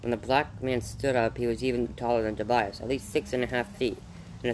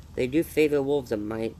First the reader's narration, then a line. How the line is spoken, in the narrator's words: Tobias said